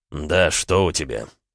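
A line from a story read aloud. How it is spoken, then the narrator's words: Irritated question. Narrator (Russian): спросил он раздраженно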